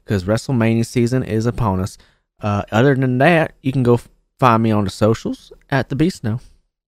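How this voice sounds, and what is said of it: Increasingly Southern put-on accent. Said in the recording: “I love that it got progressively more southern.”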